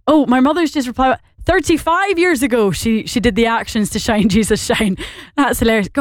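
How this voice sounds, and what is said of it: Northern Irish accent, rather Scottish-sounding. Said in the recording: “more Scottish sounding than Northern Irish ... I think I am a bit more Scottish ... I think I probably am a bit more Scottish than I am Irish”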